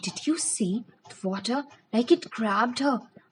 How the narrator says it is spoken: Some of the kids were whispering

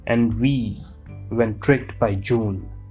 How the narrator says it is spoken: With this repeated lamentation, muttering

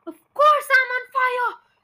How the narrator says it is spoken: yelled

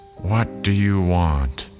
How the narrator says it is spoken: An old woman answered in a tired voice

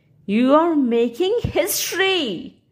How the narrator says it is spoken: cried Timothy

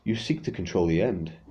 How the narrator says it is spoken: fate answered

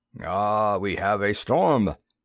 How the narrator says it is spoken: Vlassi observed as the thunder growled again

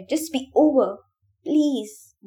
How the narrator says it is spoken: Ben said, his voice rising in desperation

